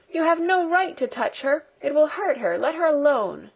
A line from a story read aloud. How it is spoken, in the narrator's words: Heidi cried indignantly